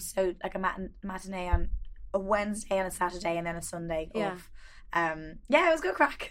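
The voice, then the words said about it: Hoarse, worn-out voice. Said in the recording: “That's probably why my voice is gone.”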